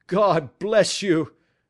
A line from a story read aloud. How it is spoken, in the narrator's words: cried the prisoner passionately